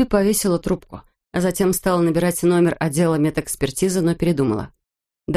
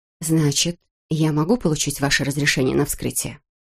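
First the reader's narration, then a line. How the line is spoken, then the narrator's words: Quiet, hesitant. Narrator (Russian): Госпожа Лэйси колебалась лишь несколько секунд, затем тихо сказала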